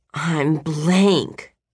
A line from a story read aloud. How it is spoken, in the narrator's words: Mom had groaned just yesterday morning